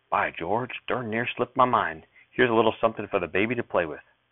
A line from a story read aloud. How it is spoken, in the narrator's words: whispered